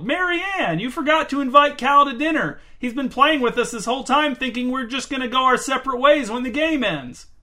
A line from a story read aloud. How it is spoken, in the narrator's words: He turned and shouted to the other end of the field